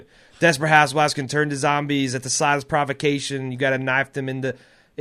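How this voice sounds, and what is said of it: Imitates a TV character's voice. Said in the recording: “doing the Rick voice”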